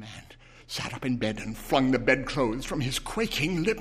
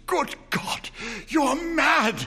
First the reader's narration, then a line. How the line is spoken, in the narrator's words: he cried, gasped